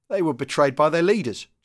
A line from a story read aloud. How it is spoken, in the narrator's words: Geordie jeered